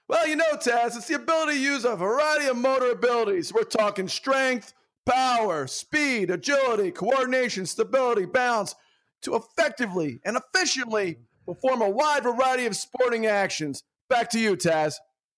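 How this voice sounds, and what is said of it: Radio announcer voice impression. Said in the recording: “radio voice, it's all, when you do the impersonations, it's the moose and every other radio guy. It's tremendous.”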